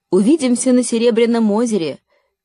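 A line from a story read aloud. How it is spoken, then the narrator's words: Shout. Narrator (Russian): крикнула Лина Лори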